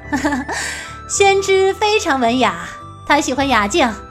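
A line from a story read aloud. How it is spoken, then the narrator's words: Laughing, cutting in. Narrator (Chinese): 白姬已经抢先笑道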